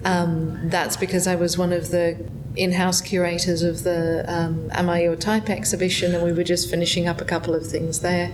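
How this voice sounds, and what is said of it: Australian accent. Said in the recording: “I hear your accent. ... I come from Melbourne.”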